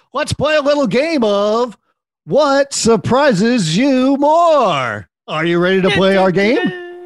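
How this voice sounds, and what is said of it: Game show host voice. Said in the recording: “do the voice. ... I have to do the little game show”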